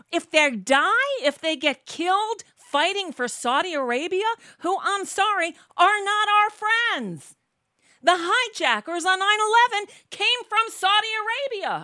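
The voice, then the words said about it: Angry yelling. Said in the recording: “I'm yelling. I'm just fucking angry.”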